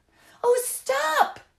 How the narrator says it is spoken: the children cried

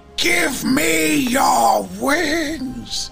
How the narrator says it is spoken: Empusa, standing in amongst the bodies, shrieks out

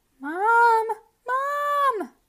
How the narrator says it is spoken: Jasper screamed

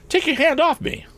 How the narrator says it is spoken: cried Tom

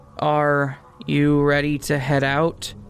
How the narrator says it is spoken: she asked, her voice slightly shaking

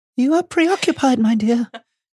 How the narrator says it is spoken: she said mournfully to Harry

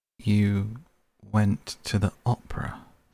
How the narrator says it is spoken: said Hallward, speaking very slowly and with a strained touch of pain in his voice

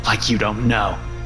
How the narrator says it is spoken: sneered

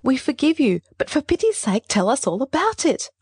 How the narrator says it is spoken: I cried

